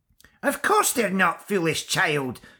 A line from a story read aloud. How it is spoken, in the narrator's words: screeched the Kyuntiach